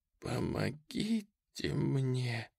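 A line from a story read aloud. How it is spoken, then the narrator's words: Pleading. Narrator (Russian): умоляющим тоном проговорила Берта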